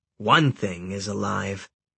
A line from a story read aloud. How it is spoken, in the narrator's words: the old man said grimly